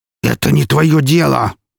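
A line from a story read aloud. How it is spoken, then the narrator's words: Growled. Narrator (Russian): прорычал он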